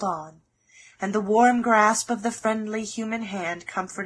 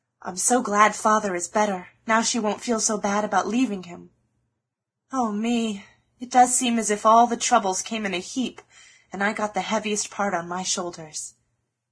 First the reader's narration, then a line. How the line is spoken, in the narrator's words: sighed Joe